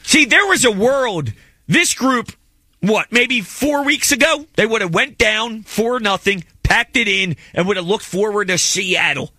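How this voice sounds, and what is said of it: Delco accent. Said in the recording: “The Delco accent is Jackson's ... Favorite accent in all the land.”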